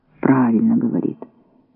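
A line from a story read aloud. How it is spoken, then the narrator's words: Muttered. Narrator (Russian): бормотал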